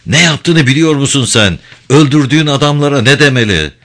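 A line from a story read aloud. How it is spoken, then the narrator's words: Shouting at full volume. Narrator (Turkish): Binbaşı olanca sesiyle bağırdı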